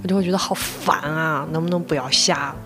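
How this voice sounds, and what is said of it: Lanzhou accent slipping through. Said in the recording (Chinese): “怎么兰州口音出来了呢？”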